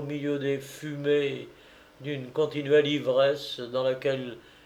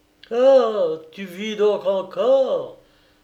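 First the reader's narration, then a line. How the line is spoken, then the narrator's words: Enthusiastic exclamation. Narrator (French): s'écria Owen dans un transport d'enthousiasme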